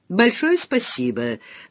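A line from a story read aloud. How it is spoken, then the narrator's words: Invisible man's mocking reply. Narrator (Russian): насмешливо отозвался человек-невидимка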